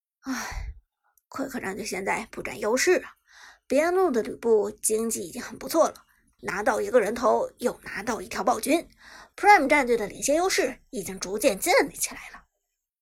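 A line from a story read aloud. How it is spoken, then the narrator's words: Bitter sigh. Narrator (Chinese): 剑南摇头苦叹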